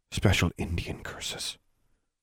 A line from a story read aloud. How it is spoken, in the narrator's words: She whispered in Alexandra's ear